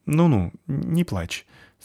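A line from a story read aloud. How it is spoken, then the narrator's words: Uncertain. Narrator (Russian): сказал он неуверенно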